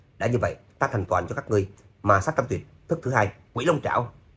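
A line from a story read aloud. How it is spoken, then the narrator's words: Through gritted teeth. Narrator (Vietnamese): Trác Phàm nghiến răng nói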